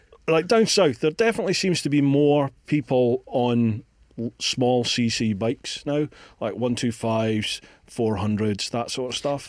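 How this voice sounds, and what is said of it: Scottish accent. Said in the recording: “How have you kept your Scottish accent as well if you live down there?”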